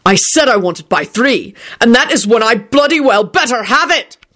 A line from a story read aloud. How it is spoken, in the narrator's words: Quentin bellowed